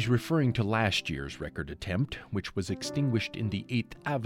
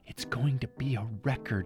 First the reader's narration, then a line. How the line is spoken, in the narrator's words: Elise whispers